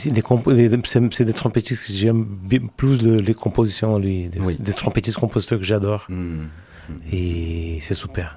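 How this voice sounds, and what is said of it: Slight foreign accent in French. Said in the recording (French): “quand je parle français, j'ai un petit accent”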